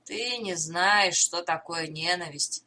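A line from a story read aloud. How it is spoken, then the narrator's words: Plain. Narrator (Russian): сказал Боудман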